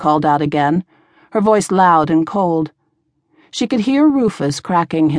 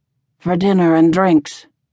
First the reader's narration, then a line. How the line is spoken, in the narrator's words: said in a soft, eerie rasp